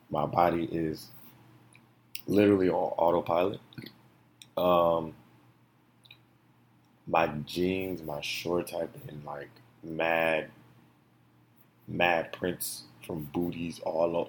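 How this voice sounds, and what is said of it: Hoarse voice. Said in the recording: “I am hoarse.”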